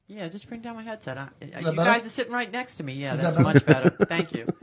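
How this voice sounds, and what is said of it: New York accent. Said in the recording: “you know with that New York. Accent. ... You got a New York accent? ... Yeah, I think I do.”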